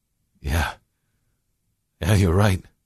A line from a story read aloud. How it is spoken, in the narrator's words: William chuckled